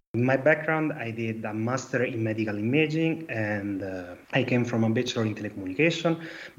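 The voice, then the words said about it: Italian accent. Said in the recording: “I'm an Italian guy, as you understand from my accent.”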